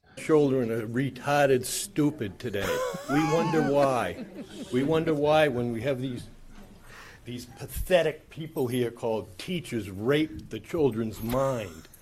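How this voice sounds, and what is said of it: New Hampshire accent. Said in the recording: “He's also from New Hampshire ... I love the spice that it gives him in his accent too. Just a little bit of the, you know, homespun spice.”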